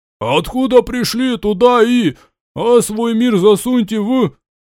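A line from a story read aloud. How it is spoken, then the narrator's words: Shout from hidden heckler. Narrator (Russian): кто-то очень смелый и культурный, спрятавшись за спинами односельчан, прокричал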